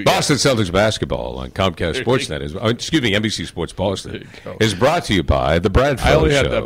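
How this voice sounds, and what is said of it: Sports commercial announcer voice. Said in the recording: “You put on your Celtics commercial voice for your answer machine ... announcer voice? ... Celtics commercial voice.”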